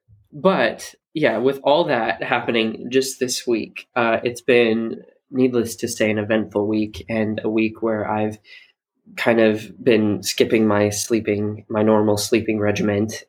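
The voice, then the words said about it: Rough, worn-out voice. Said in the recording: “you can kind of hear it in my voice, like just the crassness of it. It's getting worse now.”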